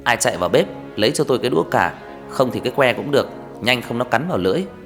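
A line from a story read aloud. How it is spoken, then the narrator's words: Shouting. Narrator (Vietnamese): Thầy quát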